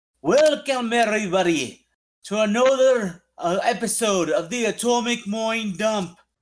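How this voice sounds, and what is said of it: Put-on accent, imitates another person's voice. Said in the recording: “I'm going to do an accent ... It's Conor McGregor.”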